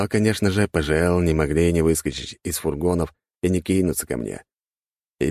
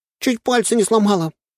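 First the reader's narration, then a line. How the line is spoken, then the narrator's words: Whimpering. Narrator (Russian): поскуливала полторашка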